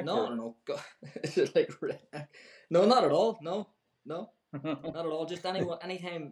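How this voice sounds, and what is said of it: Northern Irish accent. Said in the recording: “has the fine northern Irish ... accent.”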